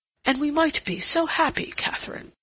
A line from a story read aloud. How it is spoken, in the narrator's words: exclaimed impulsively